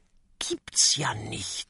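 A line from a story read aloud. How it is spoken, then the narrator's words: Whisper. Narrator (German): flüstert Kokosnuss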